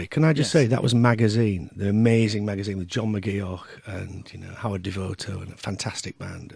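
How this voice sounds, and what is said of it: Gruff radio voice. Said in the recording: “You've got a great radio voice, actually. I'm very jealous of that gruff that you can go to.”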